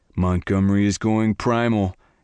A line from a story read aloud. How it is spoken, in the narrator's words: Garrett laughed